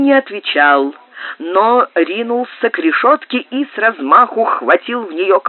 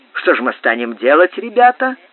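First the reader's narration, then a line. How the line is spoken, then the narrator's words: Plain question, several voices. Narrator (Russian): спросили другие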